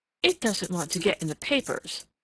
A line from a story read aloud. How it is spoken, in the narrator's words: cried Jill fiercely